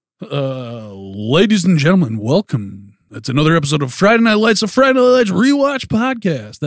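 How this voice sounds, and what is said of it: Over-the-top radio DJ announcer voice. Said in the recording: “your best radio DJ voice ... a little bit more like a strip club DJ announcer guy ... the like the obnoxious DJ”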